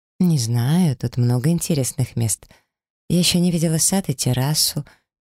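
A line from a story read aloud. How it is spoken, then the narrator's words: Hesitant, flustered. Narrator (Russian): неуверенно перечислила я, все сильнее теряясь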